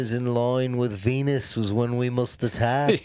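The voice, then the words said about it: Exaggerated German-accented impression. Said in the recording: “best Hitler impression I've ever heard in my life ... You're like the Michael Winslow of German accents.”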